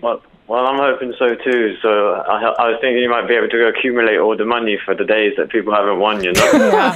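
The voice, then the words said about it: London accent. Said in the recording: “it's a London accent”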